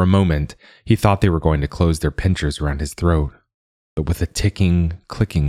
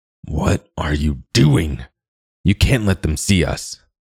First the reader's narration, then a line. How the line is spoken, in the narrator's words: growled a horribly familiar voice